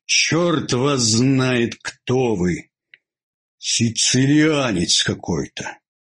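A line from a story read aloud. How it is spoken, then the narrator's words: Sleepy. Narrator (Russian): сказал он сонно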